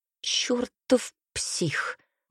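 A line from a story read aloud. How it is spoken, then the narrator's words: Quiet cursing. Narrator (Russian): негромко выругался Тео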